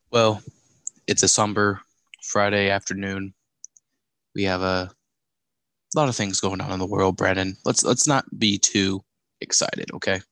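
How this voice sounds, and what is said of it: Serious, somber voice. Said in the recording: “I guess that's ... serious voice”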